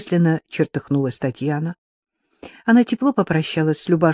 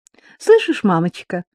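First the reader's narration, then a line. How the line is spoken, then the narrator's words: Light laughter. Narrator (Russian): легко рассмеялась Маришка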